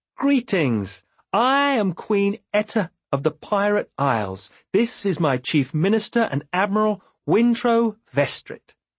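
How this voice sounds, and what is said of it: Amused, lilting voice. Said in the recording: “There was a lilt of amusement in her voice.”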